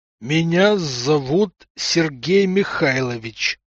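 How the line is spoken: Slow icy through gritted teeth. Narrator (Russian): сцепив зубы, ледяным тоном медленно произнес мужик

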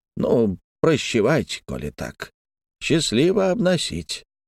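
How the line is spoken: Slightly disappointed sigh. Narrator (Russian): сказал, несколько разочарованно вздохнул

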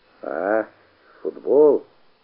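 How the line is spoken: Embarrassed drawl. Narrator (Russian): сконфуженно протянул Коломеец

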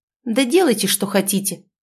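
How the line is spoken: Angry exclamation, young man. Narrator (Russian): воскликнул молодой человек в сердцах

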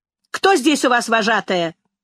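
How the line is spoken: Man shouting. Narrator (Russian): закричал человек

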